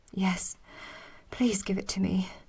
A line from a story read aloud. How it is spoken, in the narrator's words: I gasped